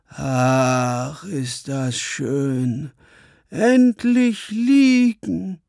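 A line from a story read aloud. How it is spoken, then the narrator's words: Long sigh, relieved. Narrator (German): Sie stieß einen langen Seufzer aus und sagte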